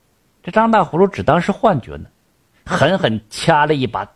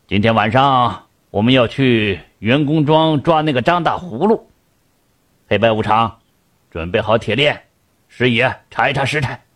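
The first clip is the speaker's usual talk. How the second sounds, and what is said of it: Stern, commanding character voice. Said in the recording (Chinese): “一个威严的声音说道”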